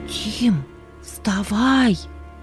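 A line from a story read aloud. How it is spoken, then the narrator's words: Loud whisper, sister. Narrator (Russian): Громким шепотом будила брата сестра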